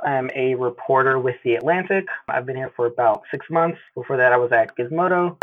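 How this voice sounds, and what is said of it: Arkansas Southern American accent. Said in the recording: “I'm an Arkansas native, hence the accent.”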